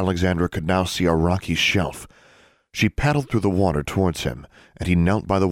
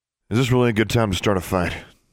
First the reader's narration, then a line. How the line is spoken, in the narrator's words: he asked dryly